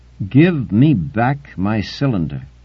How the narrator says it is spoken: said the Hawkinsite slowly

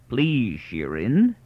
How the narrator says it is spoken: growled Aton

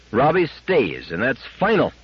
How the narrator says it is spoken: 10 times in the ensuing week he cried

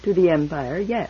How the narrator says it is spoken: said Barr

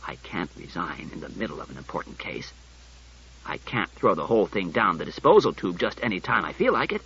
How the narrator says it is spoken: Bailey said coldly

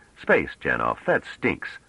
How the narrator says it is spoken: Trevise said irritably

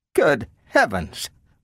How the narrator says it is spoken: muttered Bogart

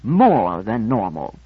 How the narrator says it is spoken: I said haughtily

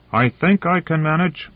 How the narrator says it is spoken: He shouted back

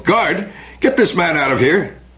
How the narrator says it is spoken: The doctor cried out sharply and called

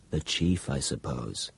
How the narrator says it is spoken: muttered Chowns

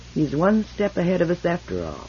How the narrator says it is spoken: Captain Pritchard said icily

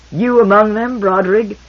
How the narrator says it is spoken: Cleon II laughed, and then grimaced with pain

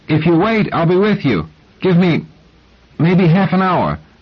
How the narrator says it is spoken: breathing hard, said, raising his voice to be heard through the door

